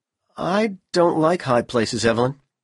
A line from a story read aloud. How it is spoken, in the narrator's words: Powell replied miserably